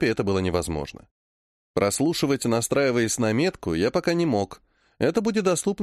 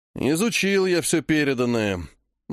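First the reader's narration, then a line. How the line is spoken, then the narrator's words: Gloomy. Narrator (Russian): мрачно сказал он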